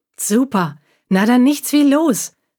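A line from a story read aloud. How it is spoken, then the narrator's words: Eager call. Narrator (German): rief Luna voller Tatendrang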